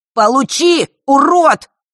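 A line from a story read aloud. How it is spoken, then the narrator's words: Piercing shout. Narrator (Russian): пронзительно выкрикнул Ярис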